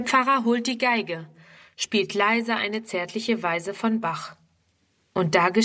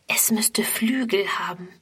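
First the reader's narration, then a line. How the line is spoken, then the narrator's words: Whispered. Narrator (German): flüstert Friedrun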